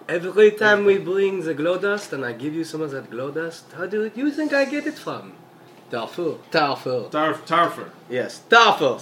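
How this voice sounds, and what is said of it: Put-on fantasy accent, sounds French. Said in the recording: “my drow accent is a little sick right now ... Everybody here sounds French?”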